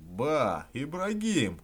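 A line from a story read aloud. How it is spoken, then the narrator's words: Shout. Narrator (Russian): закричал он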